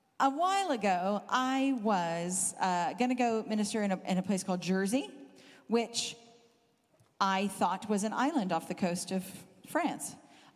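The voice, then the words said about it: Southern Californian accent, slightly British-tinged. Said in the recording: “The accent you're hearing is Southern Californian, having lived in the UK for 21 years. So I'm mush. Nobody thinks I have a British accent,”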